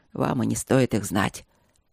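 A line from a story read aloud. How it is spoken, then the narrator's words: Grumbling. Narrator (Russian): пробурчала его светлость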